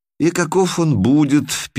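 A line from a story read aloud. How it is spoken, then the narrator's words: Sad. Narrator (Russian): печально спросил Лимус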